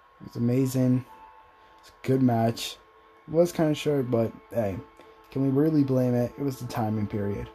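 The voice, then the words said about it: Slightly raspy, tired voice. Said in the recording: “Sorry if I sound a little bit raspy. I think I'm a little bit tired.”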